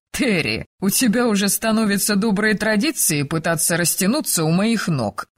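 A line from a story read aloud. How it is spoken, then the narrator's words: Cheerful. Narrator (Russian): весело произнес Айгер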